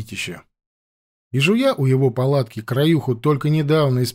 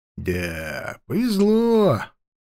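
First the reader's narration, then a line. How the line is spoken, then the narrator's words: Sad drawl. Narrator (Russian): как-то грустно протянул дядька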